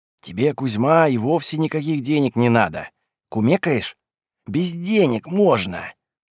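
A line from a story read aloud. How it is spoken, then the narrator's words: Whispered. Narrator (Russian): зашептал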